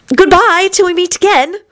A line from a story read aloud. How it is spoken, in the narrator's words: she said as cheerfully as she could